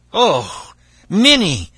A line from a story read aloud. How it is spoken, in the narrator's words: cried the man in fright